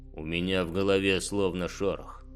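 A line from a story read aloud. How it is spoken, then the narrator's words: Grumbled. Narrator (Russian): проворчал Торл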